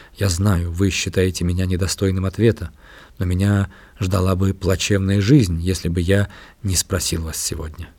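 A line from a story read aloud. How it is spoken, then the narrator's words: Ardent yet timid. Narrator (Russian): я заговорил пылко и робко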